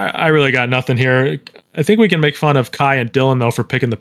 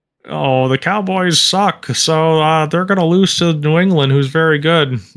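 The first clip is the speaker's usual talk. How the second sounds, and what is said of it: Imitates another person's voice. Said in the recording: “my Khai impression”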